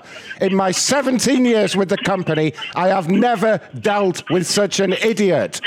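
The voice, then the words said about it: Angry yelling voice. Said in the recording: “I told you I could yell at people today. I'm losing my voice now.”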